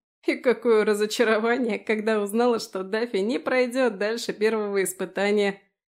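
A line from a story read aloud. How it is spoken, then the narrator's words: Burst out laughing. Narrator (Russian): расхохотался Фрей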